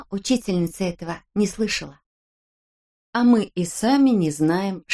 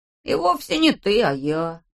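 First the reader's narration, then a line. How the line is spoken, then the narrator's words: Grumbled. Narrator (Russian): проворчал Ласси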